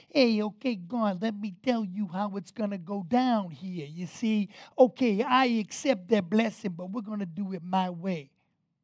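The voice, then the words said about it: Put-on accent. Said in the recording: “I'm sorry if that accent offended anybody. I don't know where that came from.”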